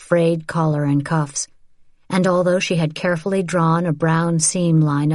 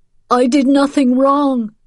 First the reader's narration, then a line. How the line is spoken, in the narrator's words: Paretsky cried